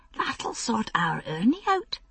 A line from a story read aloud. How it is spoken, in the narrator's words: she whispered